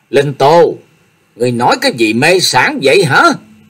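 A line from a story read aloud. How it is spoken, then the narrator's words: Frightened, angry stern shout. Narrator (Vietnamese): Hoa Miên vừa sợ vừa giận, nghiêm nghị quát lên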